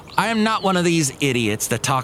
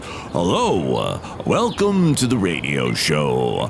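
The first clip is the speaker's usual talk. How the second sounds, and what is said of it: Fake low overmodulated radio DJ voice. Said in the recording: “I'm faking my voice and overmodulating. So when I hit the last note of my sentence, I'm talking really low. ... talk like that ... old-time radio voice”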